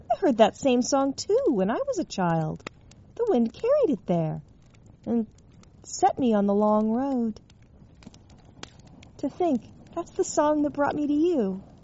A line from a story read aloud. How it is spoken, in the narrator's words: Hearing her, John exclaimed